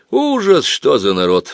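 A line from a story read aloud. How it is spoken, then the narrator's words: Sigh. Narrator (Russian): вздохнул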